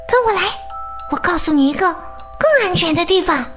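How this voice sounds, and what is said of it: Whispered, quiet speech. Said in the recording (Chinese): “小声”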